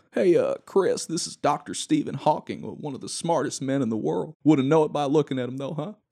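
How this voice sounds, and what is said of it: Smug southern Bill Clinton impression. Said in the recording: “Clinton said in his smug southern accent.”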